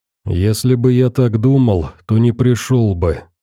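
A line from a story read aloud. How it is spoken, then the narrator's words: Sighing, bearded man. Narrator (Russian): вздохнул бородач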